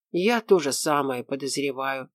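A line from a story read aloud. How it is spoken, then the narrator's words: Angry mutter. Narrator (Russian): сердито буркнула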